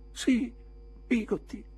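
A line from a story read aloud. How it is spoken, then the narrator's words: Sobbing. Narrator (Italian): singhiozzai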